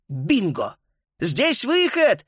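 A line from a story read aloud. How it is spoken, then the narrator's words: Shout. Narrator (Russian): крикнул он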